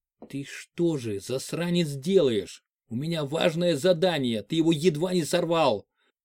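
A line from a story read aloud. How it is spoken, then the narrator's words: Hissing in ear. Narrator (Russian): прошипел в ухо ефрейтору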